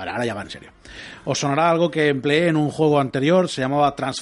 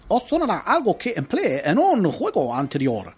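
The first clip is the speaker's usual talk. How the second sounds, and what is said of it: Put-on Japanese accent. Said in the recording (Spanish): “yo os voy a poner voz de japonés”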